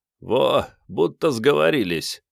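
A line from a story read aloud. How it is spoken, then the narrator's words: Short chuckle. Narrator (Russian): хохотнул Вано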